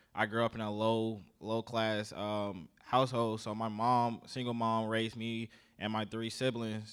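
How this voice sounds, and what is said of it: Southern US accent. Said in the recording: “I don't know if you guys can tell from my accent, I guess. I grew up in the South, so I'm from South Carolina”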